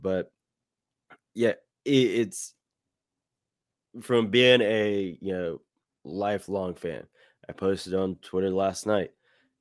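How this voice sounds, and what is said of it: Slightly hoarse voice. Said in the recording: “you can kind of hear my voice is still a little hoarse from all the cheering”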